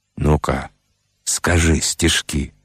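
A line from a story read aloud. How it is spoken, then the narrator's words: Quiet request. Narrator (Russian): он тихонько просил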